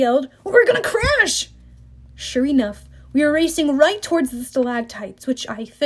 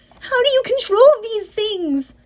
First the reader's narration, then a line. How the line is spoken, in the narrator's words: Annabeth shouted